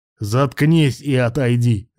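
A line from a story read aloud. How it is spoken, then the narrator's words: Barked. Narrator (Russian): рявкнул охранник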